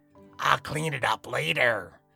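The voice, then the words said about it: Impression of Mr. Allister. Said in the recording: “her best impression of Mr. Allister”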